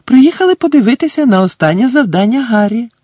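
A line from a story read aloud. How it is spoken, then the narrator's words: Joyful announcement. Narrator (Ukrainian): радісно повідомила місіс Візлі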